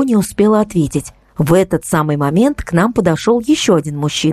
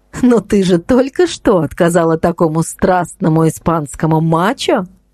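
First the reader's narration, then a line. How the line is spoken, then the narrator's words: Laughing. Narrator (Russian): рассмеялась Инна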